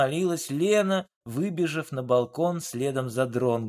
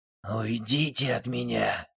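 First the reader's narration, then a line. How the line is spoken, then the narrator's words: Weary final mumble. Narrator (Russian): в последний раз пробормотал ее муж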